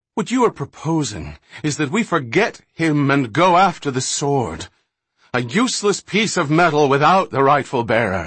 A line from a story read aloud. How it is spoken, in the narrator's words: Minyan shouted in anger, his pent-up frustration coming to the fore at last